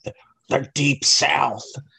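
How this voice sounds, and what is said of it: Terrible impression of a movie character. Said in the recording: “as little Nicky would put it ... that was a terrible little Nicky impersonation”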